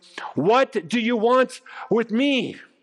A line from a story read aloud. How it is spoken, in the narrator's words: he cried out and fell at his feet, shouting at the top of his voice